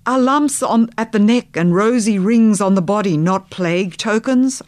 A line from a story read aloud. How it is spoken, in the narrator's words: I cried